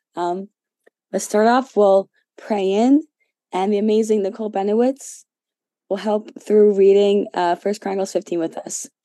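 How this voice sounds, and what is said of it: Hoarse, strained voice. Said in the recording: “apologize ahead of time for my voice... I've been losing my voice.”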